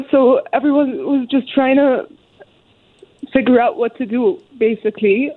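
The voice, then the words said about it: Emotional, choked-up voice. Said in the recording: “I'm sorry, I told my brother I might get emotional.”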